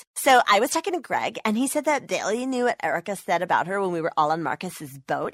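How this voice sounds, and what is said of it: Reality TV star voice. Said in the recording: “my impression of a reality TV star”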